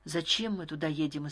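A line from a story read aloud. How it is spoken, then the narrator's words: Frightened question. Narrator (Russian): испуганно спросил я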